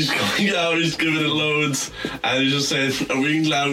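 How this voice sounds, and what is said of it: Usual voice. Nothing is said of it.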